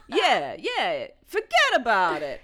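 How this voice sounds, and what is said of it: Imitated New York accent. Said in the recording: “That's what his accent sounded like. I was like, you've got to be from New York.”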